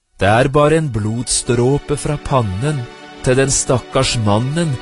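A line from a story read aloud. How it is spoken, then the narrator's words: Plain. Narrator (Norwegian): svarte fuglen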